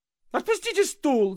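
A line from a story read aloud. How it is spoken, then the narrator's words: Sudden shriek. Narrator (Russian): завизжал вдруг Авессалом Владимирович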